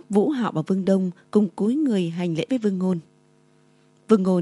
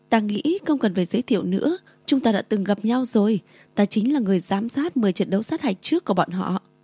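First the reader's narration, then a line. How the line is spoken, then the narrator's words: Smiling. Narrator (Vietnamese): Vương Ngôn mỉm cười nói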